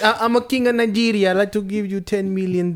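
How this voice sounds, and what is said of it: Put-on foreign accent. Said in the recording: “the way you give him an accent”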